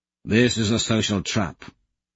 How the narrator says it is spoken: Augustus mutters back

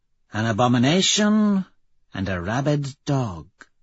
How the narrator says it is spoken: she purrs

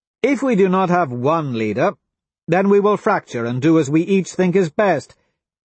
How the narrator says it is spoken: Cassia says

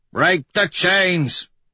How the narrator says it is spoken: Dancer bellows

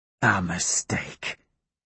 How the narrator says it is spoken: he whispers to me

